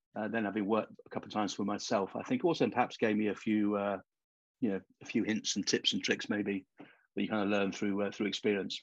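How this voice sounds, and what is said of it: British accent. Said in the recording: “your accent's a dead giveaway that you're from the United Kingdom”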